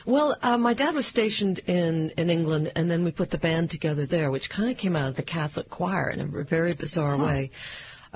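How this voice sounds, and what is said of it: American accent. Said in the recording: “this American accent”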